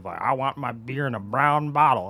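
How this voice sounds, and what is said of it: Grumpy old man voice with drawl. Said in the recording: “I love the Texas accent coming into that one... old man... we make up the weirdest accents... Old man, like grumpy old man, like northern Minnesota, but I guess I had a drawl”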